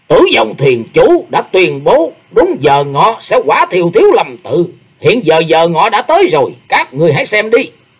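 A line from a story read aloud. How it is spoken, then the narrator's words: Loud shout from above. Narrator (Vietnamese): ba người đứng trên nóc cổng chùa lớn tiếng quát vọng xuống rằng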